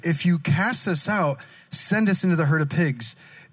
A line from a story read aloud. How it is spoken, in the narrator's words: the demons pleaded